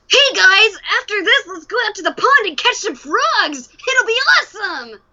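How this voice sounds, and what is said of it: Scruffy young boy cartoon voice. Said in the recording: “if I play a boy, which I've done on several occasions, he's just pretty scruffy. I call it my Ash Ketchum impression from Pokemon”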